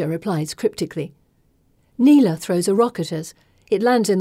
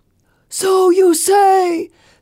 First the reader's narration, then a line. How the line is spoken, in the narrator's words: Phelon thunders